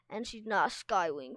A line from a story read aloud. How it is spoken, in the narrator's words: Castell snapped